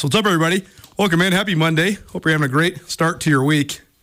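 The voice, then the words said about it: Out of breath, gasping. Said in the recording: “I'm out of breath because I was sprinting ... me gasping for air”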